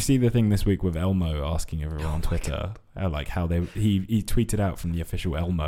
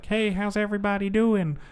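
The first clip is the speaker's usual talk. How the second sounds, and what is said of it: Elmo character voice impression. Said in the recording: “I love your Elmo impression.”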